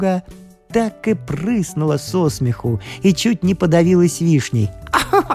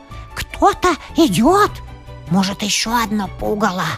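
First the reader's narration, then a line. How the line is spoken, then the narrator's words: Small sparrow whispering. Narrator (Russian): прошептал воробушек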